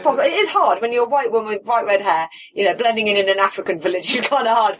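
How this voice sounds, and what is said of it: British accent. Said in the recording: “With the British accent.”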